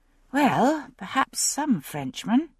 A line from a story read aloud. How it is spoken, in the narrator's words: I murmured